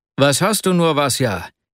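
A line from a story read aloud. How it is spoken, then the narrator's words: Breathless exclamation. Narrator (German): rief er schließlich aus, als er ihn mit großer Mühe einholte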